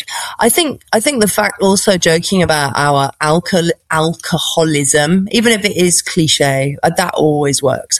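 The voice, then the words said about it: British BBC-style accent. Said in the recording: “my BBC accent that I'm British”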